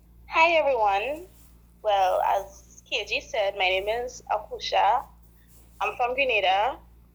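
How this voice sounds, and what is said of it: Pleasant Grenadian accent. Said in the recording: “Doesn't she sound so nice? Isn't that a nice accent?”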